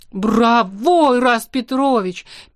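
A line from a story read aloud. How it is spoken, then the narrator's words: Exclamation. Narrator (Russian): первой воскликнула Злюка Ксантипа Петровна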